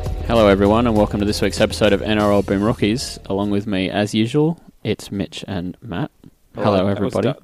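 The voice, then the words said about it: Dull NPR-style announcer voice. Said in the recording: “That was dull. ... Why are you doing your NPR voice,”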